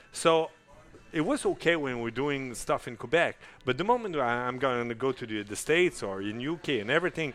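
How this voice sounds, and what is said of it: Strong French Canadian accent. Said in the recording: “I cannot sing in English because I have an accent that is huge, like vache espagnol... French Canadian singer sings in English... You guys hear it.”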